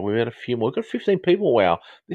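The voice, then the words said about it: Educated Australian-Southern English, baritone voice. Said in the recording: “my accent is, it's specific, probably Australian accent ... it's kind of a educated Australian slash maybe a Southern English sort of accent ... My accent is a little bit baritone-y”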